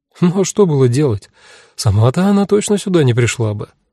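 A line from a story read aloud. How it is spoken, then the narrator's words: Sighing. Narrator (Russian): вздохнула Кара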